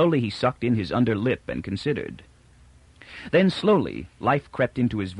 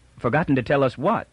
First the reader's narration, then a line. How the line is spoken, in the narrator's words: put in Toran quickly